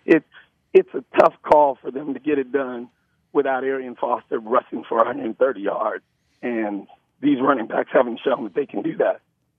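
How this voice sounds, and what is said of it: Strained, worn-out voice. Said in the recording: “get your voice some rest... You sound like you're dying... I've been yelling at children.”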